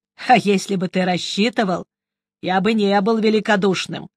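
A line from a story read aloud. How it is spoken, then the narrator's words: Stern. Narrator (Russian): строго сказал магистр Хонна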